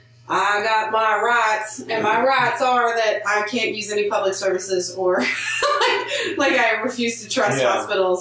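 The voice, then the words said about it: Put-on Southern US accent. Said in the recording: “I'm using a Southern accent because it's my default for voices like this ... voices where I talk about rights”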